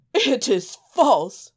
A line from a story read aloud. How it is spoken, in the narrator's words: cried the minister's son